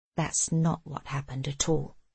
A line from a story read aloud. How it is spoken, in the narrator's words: he says gently